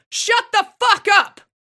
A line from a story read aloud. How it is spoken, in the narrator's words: He ... screams